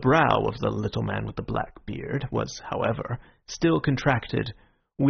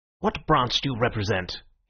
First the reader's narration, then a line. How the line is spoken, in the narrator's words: asked sharply